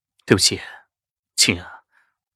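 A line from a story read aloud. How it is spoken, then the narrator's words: Sighing. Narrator (Chinese): 轻轻牵起我的手，叹道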